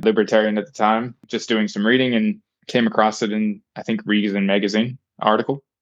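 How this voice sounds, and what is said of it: American accent. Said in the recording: “I was a young American, obviously, you can tell by my accent”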